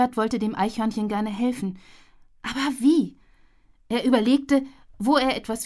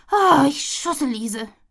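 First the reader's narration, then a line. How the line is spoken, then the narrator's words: Groaning. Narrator (German): stöhnte Tilly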